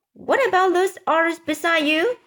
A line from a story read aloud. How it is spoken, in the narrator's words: shouted the chief of police